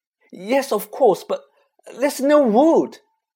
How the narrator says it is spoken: Hermione cried

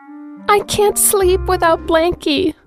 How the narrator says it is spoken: sobbed DW

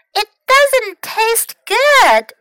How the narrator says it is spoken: she cried

